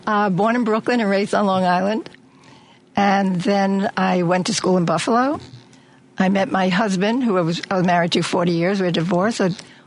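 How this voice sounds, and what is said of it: New York accent. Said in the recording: “I lived in New York. That's where I grew up. That's the accent.”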